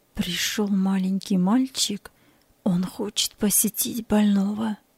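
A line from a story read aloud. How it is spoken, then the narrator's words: Quiet. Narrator (Russian): санитар тихо сказал ей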